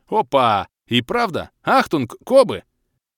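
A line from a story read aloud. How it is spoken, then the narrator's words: Shout. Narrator (Russian): крикнул Крей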